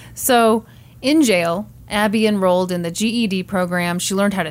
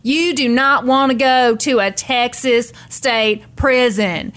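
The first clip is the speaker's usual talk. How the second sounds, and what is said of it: Nancy Grace impression. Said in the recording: “very good Nancy imitation. ... Grace.”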